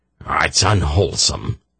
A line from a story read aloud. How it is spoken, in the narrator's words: he muttered